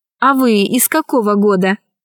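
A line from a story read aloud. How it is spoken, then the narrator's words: Plain. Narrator (Russian): спросила Алиса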